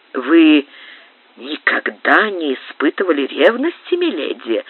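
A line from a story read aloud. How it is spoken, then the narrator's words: Insinuating voice. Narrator (Russian): спросил Рио-Санто вкрадчивым голосом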